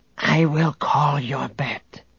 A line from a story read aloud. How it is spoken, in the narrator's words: the Gotal whispered to Han